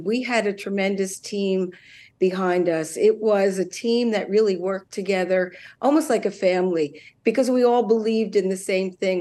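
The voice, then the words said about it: Hoarse, strained voice. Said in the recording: “I'm losing my voice a little bit after the long campaign”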